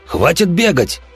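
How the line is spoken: Angry shout. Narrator (Russian): гневно крикнул охотник

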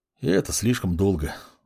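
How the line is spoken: Grumbling mutter. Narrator (Russian): буркнул маг

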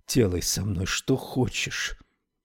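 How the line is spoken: Whisper. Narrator (Russian): она прошептала

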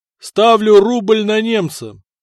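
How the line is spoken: Shout. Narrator (Russian): крикнул князь в толпу

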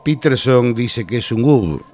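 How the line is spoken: Plain reply. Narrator (Spanish): respondió Jones

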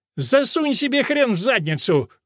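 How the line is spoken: Shouting. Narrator (Russian): крикнула Нелл

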